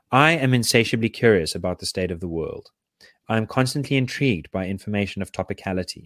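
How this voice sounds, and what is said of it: Usual voice. Nothing is said of it.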